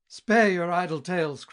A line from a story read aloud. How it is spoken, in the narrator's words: cried